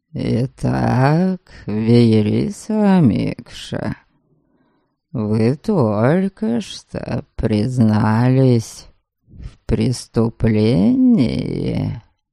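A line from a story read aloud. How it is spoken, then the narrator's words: Purring voice. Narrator (Russian): промурлыкал тем временем Норберг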